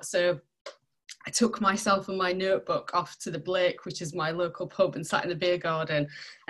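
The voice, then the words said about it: Barnsley Yorkshire accent. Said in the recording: “you'll be able to tell from my accent, I didn't grow up in Sheffield, I grew up in Barnsley”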